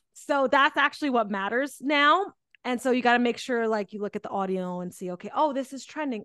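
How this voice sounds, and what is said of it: Speaks with a noticeable accent. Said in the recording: “I love your accent though.”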